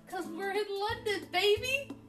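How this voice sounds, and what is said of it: Excited imitated character voice. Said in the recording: “In my Joey voice.”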